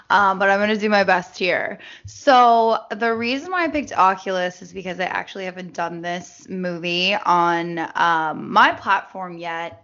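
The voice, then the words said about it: Voice sounds worse than usual. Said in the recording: “My voice is not as doesn't sound as good as it usually does.”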